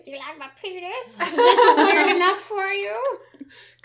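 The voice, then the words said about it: Funny put-on voice. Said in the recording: “he's talking a funny voice?”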